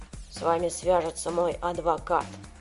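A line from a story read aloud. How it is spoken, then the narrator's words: Muttered. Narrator (Russian): пробормотал он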